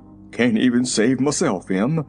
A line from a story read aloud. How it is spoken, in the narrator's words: he returned in a husky voice